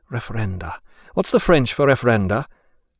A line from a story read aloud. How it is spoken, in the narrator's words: she was almost at her wit's end and mumbled to herself